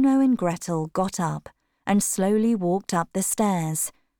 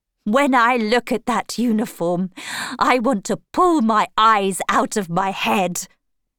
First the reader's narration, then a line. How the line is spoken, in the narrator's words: she cried